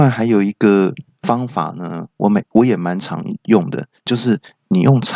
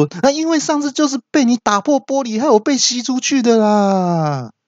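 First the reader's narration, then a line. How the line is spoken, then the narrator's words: Shouting. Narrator (Chinese): 阿北就大叫说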